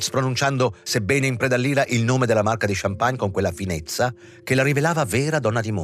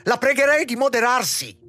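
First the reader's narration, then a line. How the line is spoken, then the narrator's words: Shrill shout. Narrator (Italian): gridò con voce stridula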